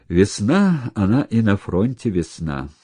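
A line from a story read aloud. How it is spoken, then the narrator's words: Sighing. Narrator (Russian): вздохнул Сажин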